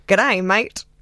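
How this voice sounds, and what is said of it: Put-on stereotypical Australian accent. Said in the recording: “your Australian accent ... It's a stereotypical line.”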